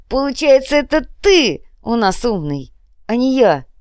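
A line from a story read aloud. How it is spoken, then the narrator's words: Giggling. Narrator (Russian): хихикнул боец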